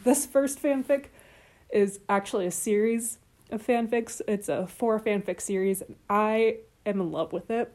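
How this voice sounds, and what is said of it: Excited, enthusiastic speaking voice. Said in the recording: “you can hear the excitement in my voice”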